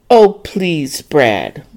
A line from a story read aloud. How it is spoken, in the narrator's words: Dorrie scoffed